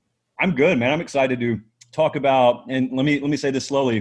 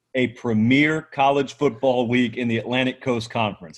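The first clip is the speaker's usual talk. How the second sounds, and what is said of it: Deliberately slow speech. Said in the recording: “let me say this slowly,”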